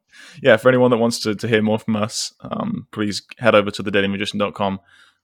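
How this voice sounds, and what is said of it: Speaking very fast. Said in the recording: “I'm saying it really fast.”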